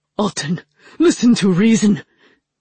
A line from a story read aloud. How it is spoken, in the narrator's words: Chagan pleaded